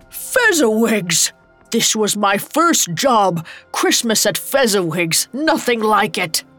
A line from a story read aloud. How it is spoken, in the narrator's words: A familiar laugh roared over the music